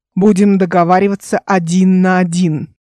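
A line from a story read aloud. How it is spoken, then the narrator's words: Growl. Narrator (Russian): прорычал капитан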